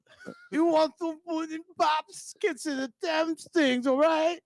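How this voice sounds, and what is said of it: Poor imitation of another person's voice. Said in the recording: “That was a terrible Cosby accent.”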